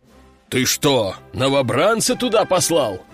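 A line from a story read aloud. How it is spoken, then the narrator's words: Roaring. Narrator (Russian): взревел генерал-майор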